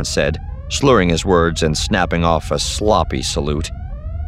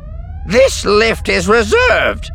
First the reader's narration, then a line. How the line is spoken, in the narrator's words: barked, her voice even louder than the incessant alarms